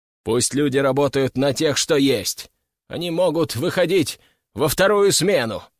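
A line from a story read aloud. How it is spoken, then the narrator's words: Loud declaration. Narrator (Russian): громко заявил он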